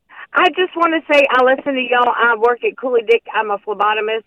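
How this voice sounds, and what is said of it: Southern US accent. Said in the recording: “I sense that perhaps you are from out of town. ... I haven't lost this accent yet ... Are you a Georgia peach?”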